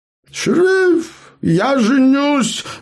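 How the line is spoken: Affectionate exclamation, gnome. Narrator (Russian): любовно воскликнул гном

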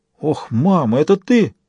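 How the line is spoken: Breathless exhale. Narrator (Russian): выдохнул Форстер

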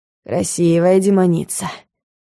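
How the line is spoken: Wheezed. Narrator (Russian): просипел он

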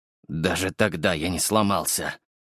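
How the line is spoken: Strained, tense. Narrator (Russian): выдавил Витас до побелевших костяшек, сжимая кулаки

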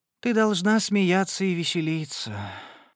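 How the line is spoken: Sighing. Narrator (Russian): вздохнула

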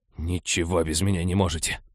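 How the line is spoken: Grumbling. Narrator (Russian): проворчал он

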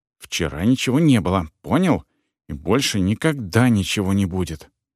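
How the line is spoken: Whispered. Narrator (Russian): шепнула

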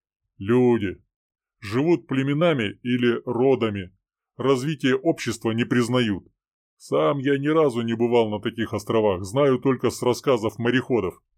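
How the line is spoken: Plain. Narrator (Russian): ответил Рыбин

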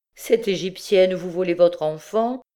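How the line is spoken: Plain. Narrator (French): dit Gervaise

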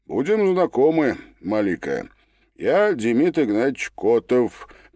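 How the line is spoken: Cossack's introduction, grunt. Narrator (Russian): представился казак и хмыкнул

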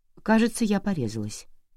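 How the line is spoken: Very calm. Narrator (Russian): сказала я так спокойно

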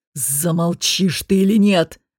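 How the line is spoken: Hiss. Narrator (Russian): прошипел Кахир

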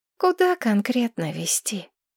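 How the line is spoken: Tired question. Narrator (Russian): устало спросила Маргарет

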